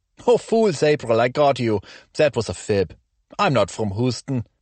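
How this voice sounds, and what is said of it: German accent. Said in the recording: “as you can probably detect from my accent ... growing up in Germany”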